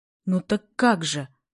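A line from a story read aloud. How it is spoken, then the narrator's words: Excited question. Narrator (Russian): вопрошал взволнованно Гремушин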